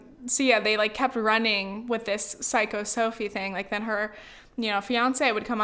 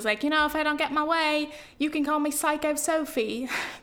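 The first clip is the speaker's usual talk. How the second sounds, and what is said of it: Exaggerated put-on accent. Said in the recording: “That horrible accent.”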